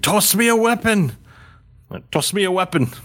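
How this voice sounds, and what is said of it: Character voice with an accent. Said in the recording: “More accent-y.”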